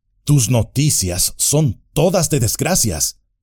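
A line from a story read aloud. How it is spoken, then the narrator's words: Dismayed exclamation. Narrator (Spanish): exclamó Éomer, consternado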